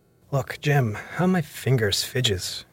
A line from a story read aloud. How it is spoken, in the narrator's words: he continued in the pleading tone